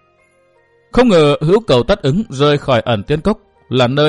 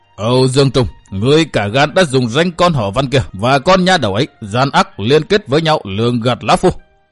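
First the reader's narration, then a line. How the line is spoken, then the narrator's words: Old man, furious, fierce. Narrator (Vietnamese): Lão nhân mặt mày giận dữ nói giọng hung tợn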